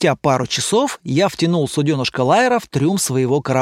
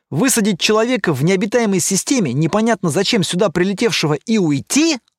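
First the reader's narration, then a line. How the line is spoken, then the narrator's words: Skeptical snort. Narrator (Russian): Лайер хмыкнул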